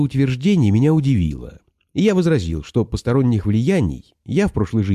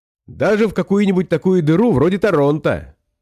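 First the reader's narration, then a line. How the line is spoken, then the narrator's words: Cheerful. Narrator (Russian): весело подхватил Смерчев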